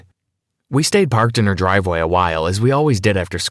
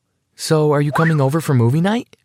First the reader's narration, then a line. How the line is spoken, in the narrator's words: asked